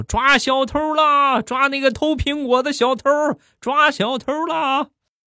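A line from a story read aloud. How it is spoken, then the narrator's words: Loud shouting, young men. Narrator (Chinese): 几个小伙冲着我大声的喊道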